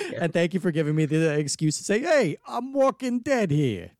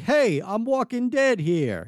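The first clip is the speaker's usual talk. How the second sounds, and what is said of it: Put-on New York accent. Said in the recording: “in a classic New York accent”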